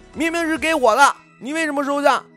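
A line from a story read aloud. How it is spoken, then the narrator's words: Shouting. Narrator (Chinese): 宋大王喊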